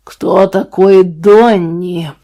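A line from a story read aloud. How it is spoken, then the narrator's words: Growl. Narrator (Russian): прорычал Ленни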